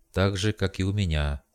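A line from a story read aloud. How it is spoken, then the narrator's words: Weary thought. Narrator (Russian): устало подумал я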